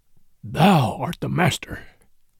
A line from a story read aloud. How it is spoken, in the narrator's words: said Bagheera, in an undertone